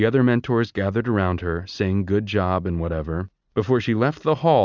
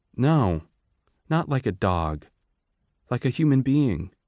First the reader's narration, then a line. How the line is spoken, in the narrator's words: said Lysistrata